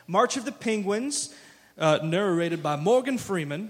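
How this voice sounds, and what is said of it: Imitates another person's voice. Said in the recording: “my Morgan Freeman impression”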